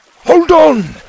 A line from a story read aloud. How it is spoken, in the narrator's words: shouted